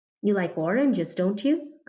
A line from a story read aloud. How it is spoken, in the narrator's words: I asked